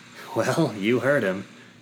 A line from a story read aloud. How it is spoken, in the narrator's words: Quinn chuckled